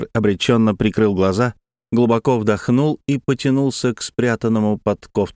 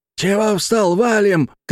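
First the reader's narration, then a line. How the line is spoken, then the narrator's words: Shout. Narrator (Russian): крикнул вандал-анархист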